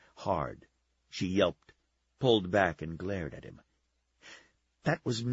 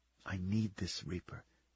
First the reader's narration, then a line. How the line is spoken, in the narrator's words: whispered